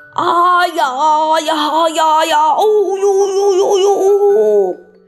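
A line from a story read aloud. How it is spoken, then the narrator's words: Giant roaring. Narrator (Chinese): 吃人肉块巨人咆哮着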